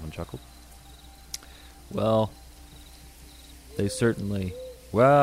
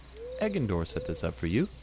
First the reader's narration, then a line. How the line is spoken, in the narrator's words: I asked